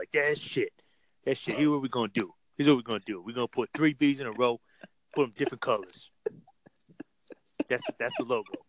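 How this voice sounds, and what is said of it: Imitates another person's voice. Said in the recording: “That was just my white imitation of a black. But that's kind of what LeVar sounds like”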